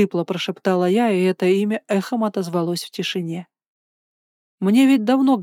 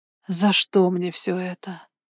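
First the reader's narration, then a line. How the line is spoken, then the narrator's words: Groaning exhale. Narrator (Russian): Со стоном выдохнула я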